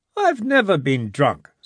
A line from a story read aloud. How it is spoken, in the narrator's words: said Jimmy indignantly